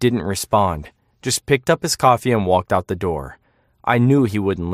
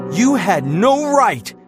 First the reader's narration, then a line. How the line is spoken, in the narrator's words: he shouted, his face turning red